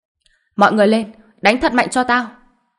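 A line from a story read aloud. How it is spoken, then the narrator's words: Pained, angry loud shout. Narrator (Vietnamese): tay của y biến thành vô cùng đau đớn, do đó trong lòng vô cùng giận Hàn Đông, hét lớn một tiếng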